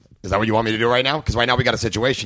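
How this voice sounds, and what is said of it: Imitates another person's voice. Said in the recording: “do you really do a Vince Vaughn impression? ... How did I not know that you could do a Vince Vaughn”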